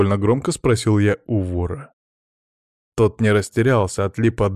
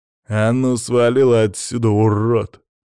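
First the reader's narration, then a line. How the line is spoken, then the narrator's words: Through gritted teeth. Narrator (Russian): процедил он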